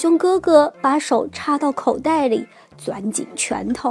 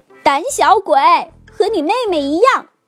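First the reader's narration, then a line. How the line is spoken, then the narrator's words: Yelling. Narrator (Chinese): 塔菲嚷道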